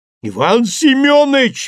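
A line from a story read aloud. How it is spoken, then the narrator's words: Howled. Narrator (Russian): взвыл Бушуев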